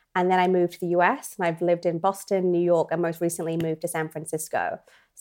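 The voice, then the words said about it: British accent. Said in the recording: “you can probably tell from my accent that I'm from the UK originally”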